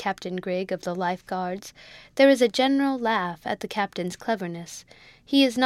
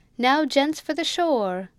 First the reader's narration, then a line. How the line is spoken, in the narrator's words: a voice exclaims